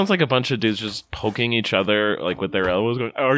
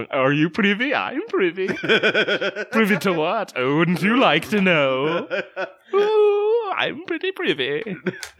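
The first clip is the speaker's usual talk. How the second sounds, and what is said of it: Bullwinkle-like cartoon character voice. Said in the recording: “the Bullwinkle-esque accent”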